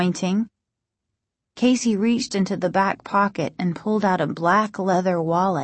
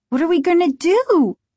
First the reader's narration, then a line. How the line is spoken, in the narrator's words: Margaret cried, panic and desperation in her voice